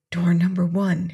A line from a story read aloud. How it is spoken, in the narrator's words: he whispered